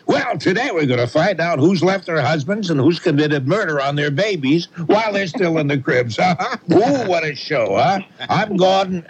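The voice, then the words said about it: Loud talk-show host impression. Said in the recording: “he talks very loud”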